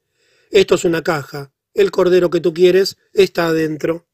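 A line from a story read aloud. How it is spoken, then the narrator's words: Impatient, hurried exclamation. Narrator (Spanish): como tenía prisa por comenzar a desmontar el motor, exclamé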